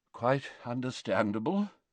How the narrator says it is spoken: murmured Dumbledore

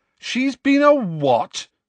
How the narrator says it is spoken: said Harry loudly

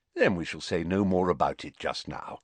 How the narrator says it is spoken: said Dumbledore more kindly

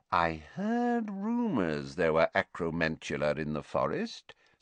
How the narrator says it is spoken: said softly

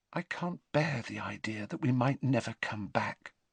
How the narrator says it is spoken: she said softly

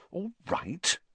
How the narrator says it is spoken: said Hermione coldly

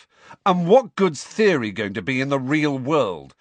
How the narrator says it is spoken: said Harry loudly

